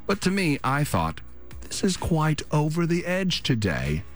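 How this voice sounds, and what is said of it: Fake British accent. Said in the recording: “I'm slipping into that fake British accent”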